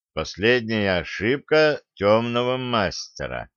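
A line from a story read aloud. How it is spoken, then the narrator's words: Slow reading aloud. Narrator (Russian): медленно прочитал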